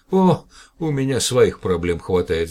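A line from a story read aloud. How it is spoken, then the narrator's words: Sigh. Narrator (Russian): вздохнул директор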